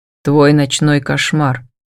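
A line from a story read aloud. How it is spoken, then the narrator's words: Cold reply. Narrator (Russian): холодно отвечает инквизитор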